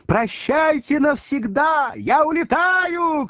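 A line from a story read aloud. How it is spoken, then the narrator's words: Shouting over music. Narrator (Russian): кричала Маргарита, заглушая вальс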